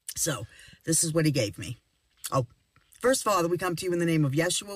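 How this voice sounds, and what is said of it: Slightly off, sick-sounding voice. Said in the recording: “My voice is a little off because ... and I have been fighting off some kind of a cold”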